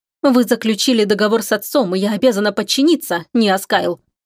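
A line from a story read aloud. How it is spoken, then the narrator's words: Angry. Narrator (Russian): зло повторила ему принцесса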